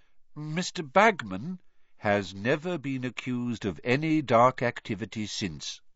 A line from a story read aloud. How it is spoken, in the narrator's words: said Dumbledore calmly